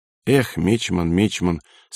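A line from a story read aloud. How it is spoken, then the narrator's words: Grieved sigh. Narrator (Russian): сокрушенно вздохнул Никонов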